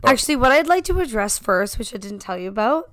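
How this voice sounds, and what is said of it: Slightly raspy, partly lost voice. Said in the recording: “anyone that's listening can still hear that my voice is a little raspy ... I caught my friend's laryngitis ... I still have a bit of a lost voice”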